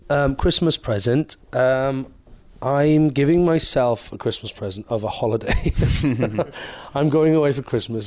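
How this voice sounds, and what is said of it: Lilting Welsh accent. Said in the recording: “Lilting Welsh accent. ... Lovely Welsh accent.”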